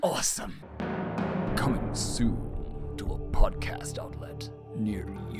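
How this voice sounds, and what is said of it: Dramatic movie trailer announcer voice. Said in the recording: “my movie trailer voice”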